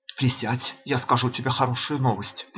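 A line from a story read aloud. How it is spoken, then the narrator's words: Boy whispering closely. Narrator (Russian): прошептал на ухо старику мальчик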